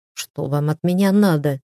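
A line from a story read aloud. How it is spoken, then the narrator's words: Muttering. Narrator (Russian): буркнул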